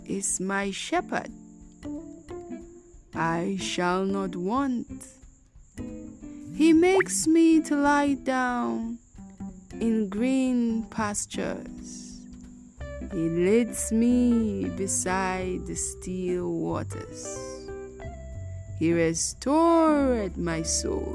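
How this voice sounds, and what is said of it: Drawling scripture reading imitation. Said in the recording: “my lame attempt at mimicking the boy, the student in question ... that was a drawl. There was a drawl to the voice.”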